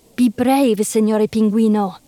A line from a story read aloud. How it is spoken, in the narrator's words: quickly muttered